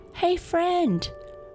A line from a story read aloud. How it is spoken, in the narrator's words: shouted Otto to the wind